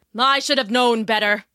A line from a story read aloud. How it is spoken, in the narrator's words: he grumbled